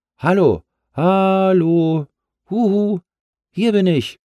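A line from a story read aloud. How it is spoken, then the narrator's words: Excited bouncing call. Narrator (German): hopste auf seiner Wolke hin und her, wedelte mit den Armen und rief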